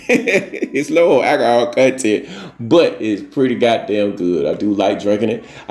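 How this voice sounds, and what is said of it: Slightly slurred speech. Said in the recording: “I'm fucking up my words again ... I'm slurring my words a little bit.”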